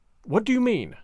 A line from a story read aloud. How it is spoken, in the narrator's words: asked, very calmly, for I was far stronger than he, and not easily frightened